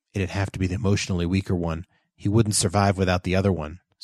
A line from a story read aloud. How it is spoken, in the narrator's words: said Joseph quietly